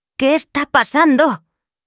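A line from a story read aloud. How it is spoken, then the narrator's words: Shouted, excited. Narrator (Spanish): gritó, aunque en realidad estaba más emocionada que asustada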